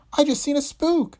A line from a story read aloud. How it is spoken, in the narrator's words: she gasped